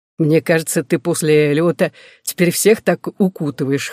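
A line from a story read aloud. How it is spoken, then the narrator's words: Chuckling. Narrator (Russian): хохотнул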